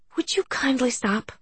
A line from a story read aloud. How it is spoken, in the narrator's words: Joanna pleaded